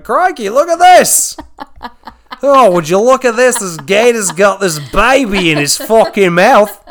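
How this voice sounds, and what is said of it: Poor put-on Australian accent. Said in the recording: “I'm not good at Australian accents.”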